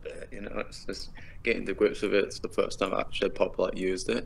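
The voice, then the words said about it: British accent. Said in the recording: “as you can tell from like the accent, I'm British”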